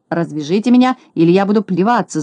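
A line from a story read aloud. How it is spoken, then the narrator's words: Yelling. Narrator (Russian): завопил Скуперфильд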